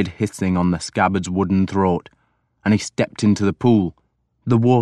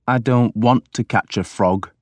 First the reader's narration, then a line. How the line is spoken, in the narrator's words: I said sullenly